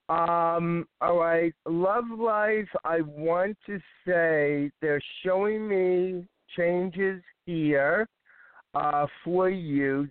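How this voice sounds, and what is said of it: Hoarse voice. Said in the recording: “I seem to be a little hoarse today”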